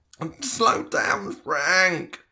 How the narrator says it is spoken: Tom whined

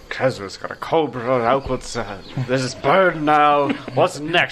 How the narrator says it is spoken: you just hear Adelar mumble

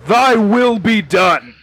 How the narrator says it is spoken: just shouts

